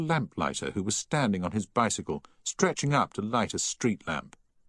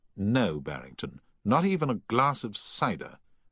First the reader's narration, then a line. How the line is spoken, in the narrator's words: said Paget firmly